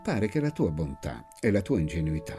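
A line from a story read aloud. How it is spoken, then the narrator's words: Plain. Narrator (Italian): mi disse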